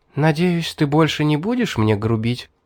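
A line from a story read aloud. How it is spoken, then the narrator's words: Gentle question. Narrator (Russian): она ласково спросила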